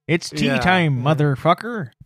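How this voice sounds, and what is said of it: Imitates another person's voice. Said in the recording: “I'm not going to do his accent.”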